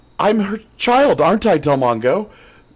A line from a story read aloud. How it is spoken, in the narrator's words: Janna asked nervously